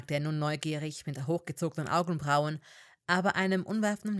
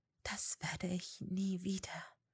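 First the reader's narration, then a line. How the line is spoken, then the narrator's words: Breathy whisper. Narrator (German): hauchte sie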